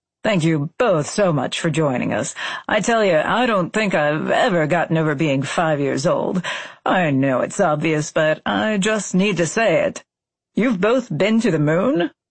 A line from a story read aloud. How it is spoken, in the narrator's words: Parker laughed